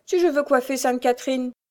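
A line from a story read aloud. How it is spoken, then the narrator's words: Laughing. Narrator (French): disait-elle en riant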